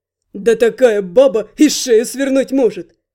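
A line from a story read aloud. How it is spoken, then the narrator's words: Snorting. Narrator (Russian): хмыкнул Финн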